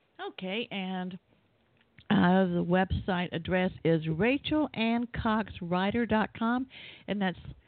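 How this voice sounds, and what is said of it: Southern American accent. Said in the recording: “I guess it's my southern accent, they always think I'm saying writer like a bike rider.”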